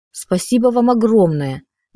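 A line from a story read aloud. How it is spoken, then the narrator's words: Exclaimed. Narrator (Russian): воскликнула я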